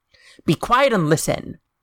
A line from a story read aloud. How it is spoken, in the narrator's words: Lisa snapped